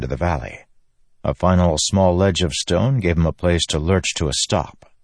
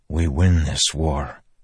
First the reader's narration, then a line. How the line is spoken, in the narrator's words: Dalinar said softly